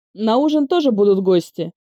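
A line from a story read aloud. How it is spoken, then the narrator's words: Warning. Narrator (Russian): предупредил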